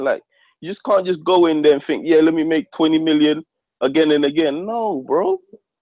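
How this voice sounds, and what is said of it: Slight Jamaican accent. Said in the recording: “I hear like a little distinct Jamaican accent in there.”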